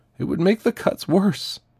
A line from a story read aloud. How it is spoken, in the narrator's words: Ruth sobbed